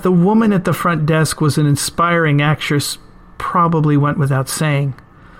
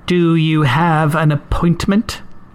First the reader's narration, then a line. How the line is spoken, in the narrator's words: the receptionist asked, icily